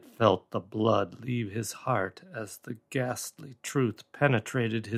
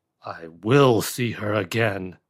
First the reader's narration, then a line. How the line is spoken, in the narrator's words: raved David wildly